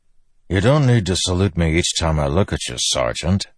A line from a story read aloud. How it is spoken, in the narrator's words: Dalinar said dryly